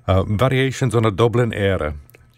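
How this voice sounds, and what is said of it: Put-on Irish accent. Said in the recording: “I've been practicing my Irish accent ... You can criticize me all you want”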